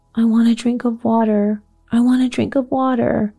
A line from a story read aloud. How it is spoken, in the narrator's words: Mary was sobbing